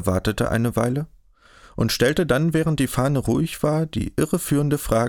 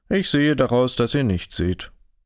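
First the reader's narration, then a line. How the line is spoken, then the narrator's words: Calm reply. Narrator (German): Kaspar versetzte ruhig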